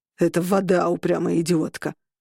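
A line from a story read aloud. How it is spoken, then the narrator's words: Growled. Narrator (Russian): прорычал он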